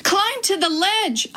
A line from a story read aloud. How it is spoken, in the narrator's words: I cried